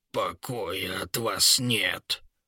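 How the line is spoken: Grumpy old grumbling. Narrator (Russian): бурчал король-дворец, с возрастом ставший ворчливым

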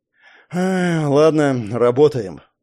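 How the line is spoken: Sigh. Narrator (Russian): вздохнул Егор

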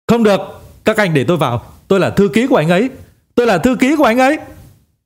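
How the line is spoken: Hurried shout. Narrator (Vietnamese): Ngô Quỳnh vội vàng hét lên

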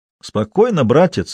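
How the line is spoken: Cheerful. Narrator (Russian): весело погрозил ему Сидоров

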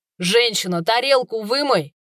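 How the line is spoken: Barking. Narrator (Russian): рявкнул он

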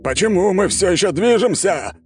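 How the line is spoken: Emperor yelling. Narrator (Russian): орал император Воздушной империи

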